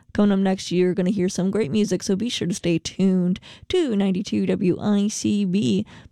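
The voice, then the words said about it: Radio announcer voice. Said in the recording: “this radio announcer voice I am doing right now ... I really like the inflection of it”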